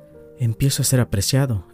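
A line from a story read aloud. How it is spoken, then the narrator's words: Exclaimed. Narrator (Spanish): exclamó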